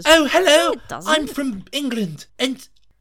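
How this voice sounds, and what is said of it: Exaggerated put-on British accent. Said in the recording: “her accent doesn't come across ... like ... That's not what she sounds ... Like. That's what Edward sounds like.”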